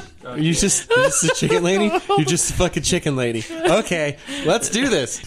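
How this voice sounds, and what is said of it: Usual voice. Nothing is said of it.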